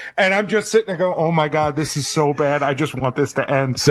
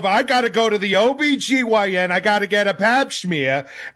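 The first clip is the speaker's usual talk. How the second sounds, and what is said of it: Imitates a Long Island mom's voice. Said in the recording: “they were all so Long Island ... Sounded like Diana Rossini's mom. That impression.”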